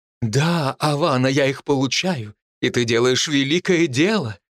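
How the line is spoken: Sugary voice. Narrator (Russian): слащавым голосом произнес блондин

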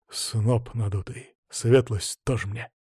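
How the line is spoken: Grumbled for show. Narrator (Russian): буркнул Иван, но уже больше для острастки

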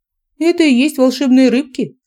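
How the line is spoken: Giggling. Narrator (Russian): хихикнула я

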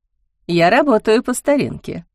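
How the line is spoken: Laughing admission. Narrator (Russian): смеясь признавалась она

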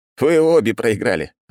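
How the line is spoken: Laughing. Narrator (Russian): рассмеялся я

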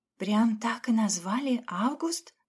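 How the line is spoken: Whisper. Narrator (Russian): продолжила она уже шепотом

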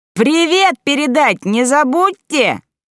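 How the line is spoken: Shouted in farewell. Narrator (Russian): крикнула тётка Валя на прощание

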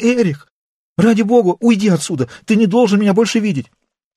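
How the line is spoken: Frightened exclamation. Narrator (Russian): Она испуганно обернулась и, увидев Эриха, воскликнула

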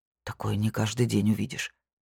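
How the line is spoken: Muttered. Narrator (Russian): пробормотал Томаш

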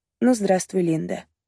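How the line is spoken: Muttered. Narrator (Russian): пробормотала

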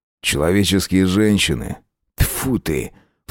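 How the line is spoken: Scornful snort. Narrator (Russian): фыркнул Аскольд

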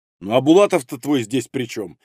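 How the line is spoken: Irritated. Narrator (Russian): раздраженно проговорил император

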